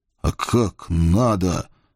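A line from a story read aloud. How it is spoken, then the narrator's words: Groaned through clenched teeth. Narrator (Russian): Сцепив зубы, простонал я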